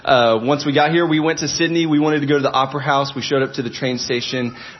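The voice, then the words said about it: American accent. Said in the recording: “my accent probably sounds weird. I'm from America.”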